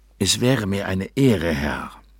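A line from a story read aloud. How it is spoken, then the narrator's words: Croaky purring. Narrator (German): säuselte er krächzend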